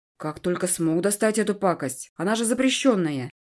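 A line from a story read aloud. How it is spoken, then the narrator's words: Snorting. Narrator (Russian): Эдви хмыкнул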